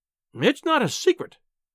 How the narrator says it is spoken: she cried

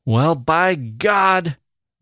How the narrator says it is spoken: the youth shouted

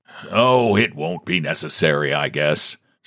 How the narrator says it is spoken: said the president, somewhat shamed, irritably

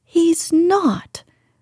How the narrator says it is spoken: cried Mary, almost shouting up the wall in her fierce indignation

